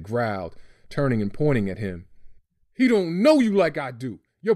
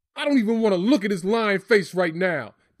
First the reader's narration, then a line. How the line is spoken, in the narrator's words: Dad yelled